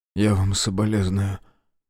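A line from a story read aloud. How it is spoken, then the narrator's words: Choked voice. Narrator (Russian): проговорил сдавленным голосом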